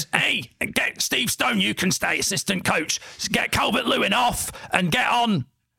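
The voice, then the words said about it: Impression of Sean Dyche. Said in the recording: “I'll do the Dyche voice.”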